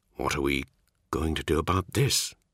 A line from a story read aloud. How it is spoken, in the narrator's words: he asked quietly